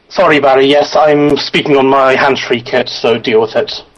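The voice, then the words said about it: Speaks with a noticeable accent. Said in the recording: “we just needed to bring in some more accent to this show. You've definitely upped the accent quotient”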